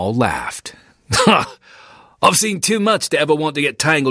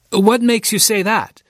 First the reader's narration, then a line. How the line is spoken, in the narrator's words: Alfred asked